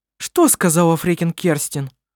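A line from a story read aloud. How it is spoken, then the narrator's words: Sharp question. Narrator (Russian): резко спросила Анна-Мария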